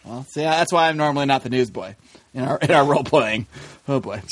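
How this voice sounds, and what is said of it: Usual voice. Nothing is said of it.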